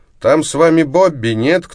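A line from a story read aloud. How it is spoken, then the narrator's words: Mocking distant shout. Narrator (Russian): насмешливо крикнул с берега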